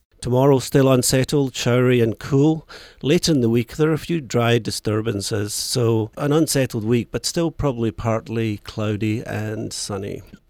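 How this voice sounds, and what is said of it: Scottish accent. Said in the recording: “this Scottish accent”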